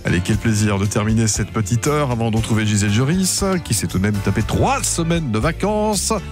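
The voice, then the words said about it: Sick, flu-affected voice. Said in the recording (French): “Bon, vraiment, je suis vraiment pas bien. ... Même l'accent est grippé aujourd'hui. C'est terrible.”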